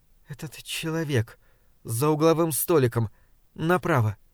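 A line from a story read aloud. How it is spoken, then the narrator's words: Quiet speech. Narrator (Russian): тихо сказала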